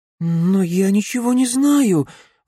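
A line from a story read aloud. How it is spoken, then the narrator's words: Young woman babbling nervously. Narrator (Russian): взволнованно пролепетала девушка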